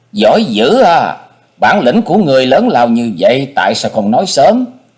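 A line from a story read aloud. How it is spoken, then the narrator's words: Ecstatic shriek. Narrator (Vietnamese): Cô quá vui mừng, gần như phát điên lên vậy, miệng hét toáng lên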